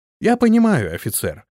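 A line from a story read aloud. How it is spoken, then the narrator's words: Calm reply. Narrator (Russian): спокойно ответил Антон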